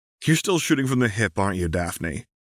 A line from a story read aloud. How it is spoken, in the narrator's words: giggled Anna